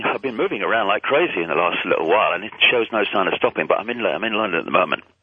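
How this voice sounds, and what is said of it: British accent. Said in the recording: “It's that accent. My favorite Brit”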